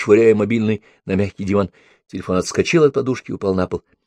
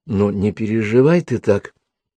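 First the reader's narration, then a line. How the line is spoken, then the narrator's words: Softly spoken. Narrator (Russian): мягко произнесла Нола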